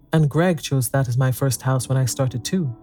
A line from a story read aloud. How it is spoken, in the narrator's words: Bart said